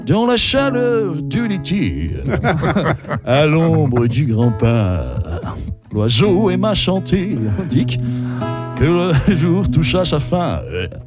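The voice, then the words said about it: Imitates a singer, octave drops. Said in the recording (French): “façon Yves Montand ... il y a la descente d'octave ... c'est plus haut aussi”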